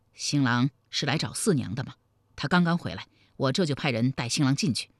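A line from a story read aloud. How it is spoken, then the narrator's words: Low-voiced question. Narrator (Chinese): 李隆基压低声音问道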